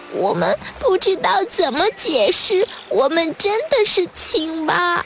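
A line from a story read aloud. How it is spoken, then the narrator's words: Tearful, very quiet. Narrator (Chinese): 小蝌蚪们哭哭啼啼地……然后很小声地说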